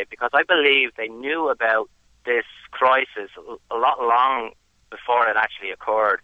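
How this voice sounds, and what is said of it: Irish accent. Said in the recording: “I don't know if you can tell from my accent, I'm originally from Ireland.”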